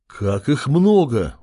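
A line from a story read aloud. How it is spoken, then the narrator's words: Horrified exclamation. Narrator (Russian): ужаснулся Нурон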